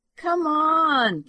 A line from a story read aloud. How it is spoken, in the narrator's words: Candy whined